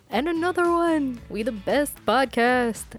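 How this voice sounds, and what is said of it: Imitates another person's voice. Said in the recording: “my best DJ Khaled impression”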